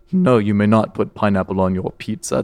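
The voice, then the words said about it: Lower-register impression of a movie character. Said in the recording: “make your voice a lower register ... That was Morpheus from the Matrix, actually. ... 100% Morpheus.”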